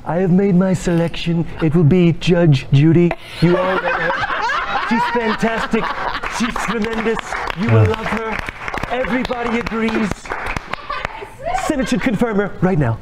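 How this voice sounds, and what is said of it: Donald Trump impression. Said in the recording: “That was his impression of Donald Trump?”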